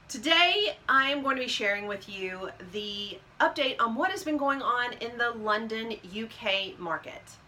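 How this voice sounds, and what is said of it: Kentucky-ish accent. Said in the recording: “with a normal accent, Kentucky-ish, whatever.”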